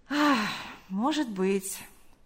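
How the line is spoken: Sighing. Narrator (Russian): вздохнув, сказал он

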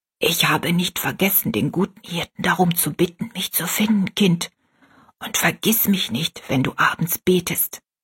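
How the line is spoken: Whispering in ear. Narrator (German): flüsterte sie Rosalie ins Ohr

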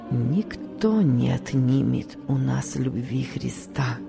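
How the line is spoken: Barely audible voice. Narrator (Russian): выговорил он едва слышным голосом

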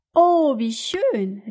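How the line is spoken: Delighted exclamation. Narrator (German): rief Kato-san

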